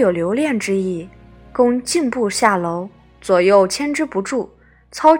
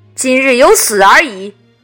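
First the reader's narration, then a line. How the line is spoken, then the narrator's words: Loud declaration. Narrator (Chinese): 公大声曰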